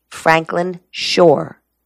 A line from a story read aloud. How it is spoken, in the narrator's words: Mason said